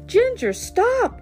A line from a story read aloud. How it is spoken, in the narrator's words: cried Jules